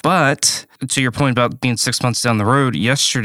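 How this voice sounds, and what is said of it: Usual voice. Nothing is said of it.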